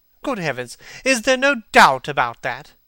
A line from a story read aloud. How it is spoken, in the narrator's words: cried Hallward, with an expression of horror